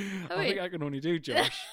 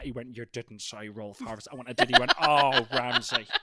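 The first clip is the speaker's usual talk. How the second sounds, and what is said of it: Impression of Josh Whittingham. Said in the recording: “That was a really good Josh Whittingham impression ... my Josh Whittingham's not too bad”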